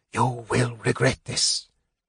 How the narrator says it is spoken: Raceland choked

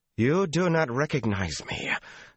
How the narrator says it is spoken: Sulin broke in savagely

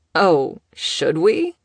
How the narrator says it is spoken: Killian chuckled

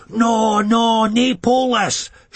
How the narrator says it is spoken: shouts one of the draft-pack psychos

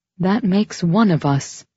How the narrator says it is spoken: she said with a troubled sigh

